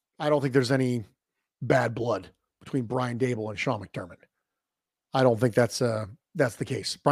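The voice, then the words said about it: Strained, failing voice. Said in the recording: “As you can probably tell, my voice is beginning to fail.”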